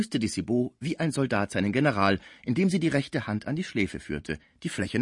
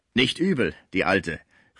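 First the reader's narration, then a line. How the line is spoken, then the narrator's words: Calling out. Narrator (German): rief Gaudissart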